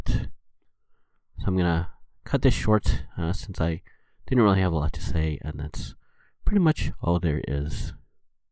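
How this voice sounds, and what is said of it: Slightly sick-sounding voice. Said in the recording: “I'm sick. You might be able to tell in my voice a little bit”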